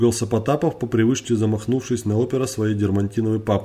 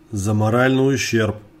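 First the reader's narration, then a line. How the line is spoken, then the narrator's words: Smirking snort. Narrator (Russian): хмыкнул Потапов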